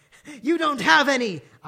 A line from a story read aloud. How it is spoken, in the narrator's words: yelled in madly